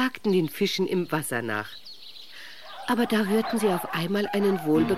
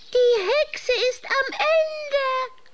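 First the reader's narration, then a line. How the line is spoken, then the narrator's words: Shrieking bats. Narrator (German): kreischten die Fledermäuse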